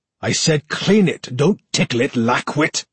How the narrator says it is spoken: spat

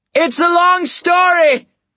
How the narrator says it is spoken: I shouted

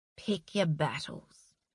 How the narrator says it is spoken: he said softly

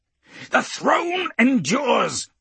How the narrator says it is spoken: Zidius roars

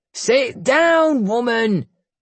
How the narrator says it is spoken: he barked

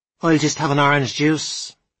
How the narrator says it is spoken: said Mary Margaret, raising her voice a little

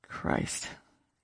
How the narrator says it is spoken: Daniel said, and his tone of infuriated sympathy

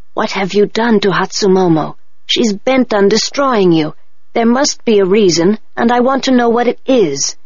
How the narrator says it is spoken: Auntie to say quietly to me

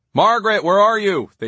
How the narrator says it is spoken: they shouted, as if she'd gotten lost

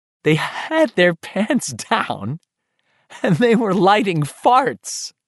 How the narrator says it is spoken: Giggling wildly, Beverly says

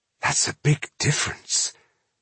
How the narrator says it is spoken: she said quietly

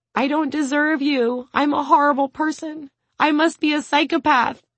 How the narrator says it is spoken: cries

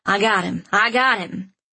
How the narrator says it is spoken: in a confident voice

